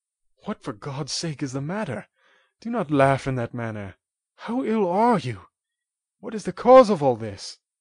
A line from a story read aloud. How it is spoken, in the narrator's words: cried he